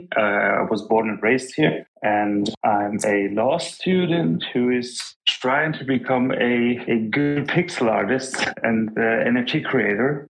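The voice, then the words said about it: Foreign Turkish-German accent. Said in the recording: “I hope you can understand me despite of my foreign language or accent. ... I'm Turkish, but I'm from Germany.”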